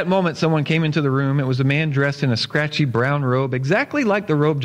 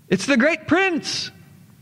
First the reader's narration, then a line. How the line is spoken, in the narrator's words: someone shouted